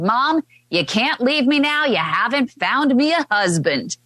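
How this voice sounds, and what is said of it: Southern drawl. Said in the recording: “why the Southern drawl?”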